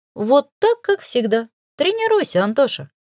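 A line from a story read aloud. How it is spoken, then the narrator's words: Cheerful female laughter. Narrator (Russian): весело рассмеялась я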